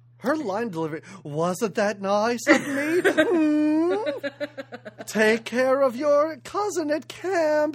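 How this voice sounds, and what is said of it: Imitates another person's voice. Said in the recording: “this is better than your Dolly Parton. That's a very good imitation. That was really good.”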